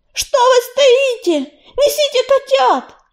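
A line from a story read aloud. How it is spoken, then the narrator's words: Shouted. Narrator (Russian): крикнул он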